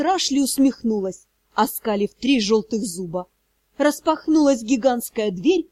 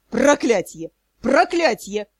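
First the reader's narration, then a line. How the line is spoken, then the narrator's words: Dull, cracking roar. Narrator (Russian): взревел помещик, но голос был тусклый, будто надломленный встречным ветром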